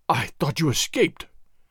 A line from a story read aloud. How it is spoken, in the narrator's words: Don Carlos gasped again